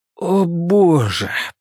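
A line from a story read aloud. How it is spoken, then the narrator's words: Near moan. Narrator (Russian): почти простонал Луис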